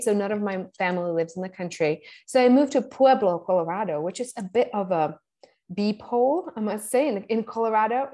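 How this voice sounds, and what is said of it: Eastern European accent. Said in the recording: “I don't know if you can hear my accent, but I'm from Eastern Europe”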